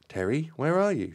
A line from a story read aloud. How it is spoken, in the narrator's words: she cried out anxiously